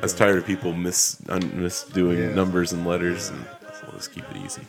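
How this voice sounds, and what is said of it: Southern US accent. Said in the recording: “the guy from down south ... If you couldn't tell by his accent.”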